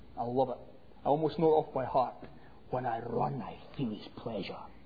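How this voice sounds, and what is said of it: Scottish accent. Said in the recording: “Growing up in Scotland ... with that accent”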